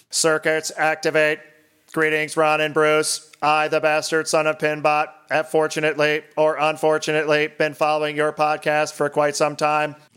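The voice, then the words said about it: 80s robot voice. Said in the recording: “It says to be read in an 80s robot voice.”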